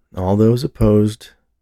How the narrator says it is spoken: the dean said, the arrogance that normally dominated his tone now absent

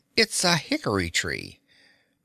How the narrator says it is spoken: chuckled the wizard

